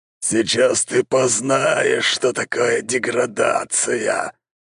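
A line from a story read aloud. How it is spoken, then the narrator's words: Monster's hiss. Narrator (Russian): прошипел монстр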